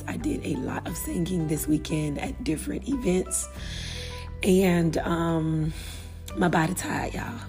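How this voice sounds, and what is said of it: Hoarse voice. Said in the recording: “my voice is a little hoarse ... my voice is not 100%”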